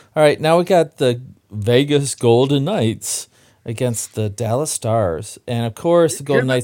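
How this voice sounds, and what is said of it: Disdainful sports announcer voice. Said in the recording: “Hear that disdain in ... voice? Here's the disdain. ... I did a little bit of my announcer voice there for the Golden Knights.”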